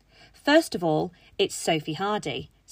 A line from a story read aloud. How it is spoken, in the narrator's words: Sophie snapped back